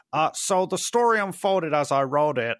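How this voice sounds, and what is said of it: Imitates another person's voice. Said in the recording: “I'm gonna try and do a Favreau impression.”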